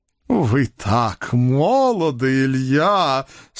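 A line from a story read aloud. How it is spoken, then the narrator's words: Drawn out with feeling. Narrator (Russian): с чувством протянул жандарм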